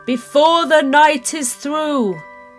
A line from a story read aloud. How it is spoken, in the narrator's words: he shouted